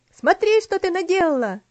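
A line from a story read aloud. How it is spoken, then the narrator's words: Shout. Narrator (Russian): закричал Артур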